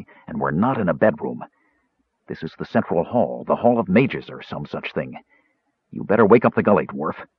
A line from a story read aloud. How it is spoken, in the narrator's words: Caramon said softly